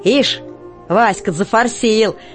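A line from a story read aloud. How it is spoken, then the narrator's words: Mocking. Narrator (Russian): насмешливо отзывается Котька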